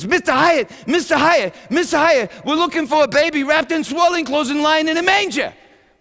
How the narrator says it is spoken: he screams

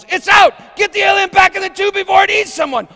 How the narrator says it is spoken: a guy yells

